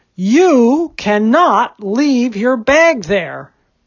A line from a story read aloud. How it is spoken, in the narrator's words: an even louder shout